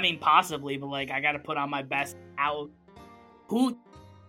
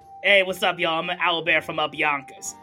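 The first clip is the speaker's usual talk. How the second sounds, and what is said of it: Put-on regional accent. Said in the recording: “perhaps you're from another territory, maybe. I'm sure they have accents”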